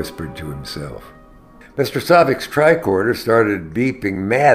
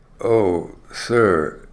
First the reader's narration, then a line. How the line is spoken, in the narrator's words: Chekhov said, his voice dripping with remorse